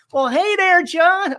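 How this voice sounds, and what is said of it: Attempted Southern US accent. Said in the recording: “I still can't talk Southerner, but everybody around me does ... I can't do it.”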